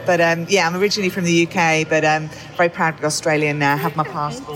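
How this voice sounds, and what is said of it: British Queen's English accent. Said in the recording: “you have a beautiful accent. It sounds like the Queen's English.”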